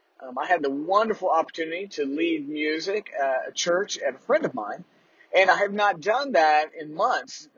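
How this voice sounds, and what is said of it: Strained, tired-sounding voice. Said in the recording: “I can tell at the recording here that my voice is definitely strained.”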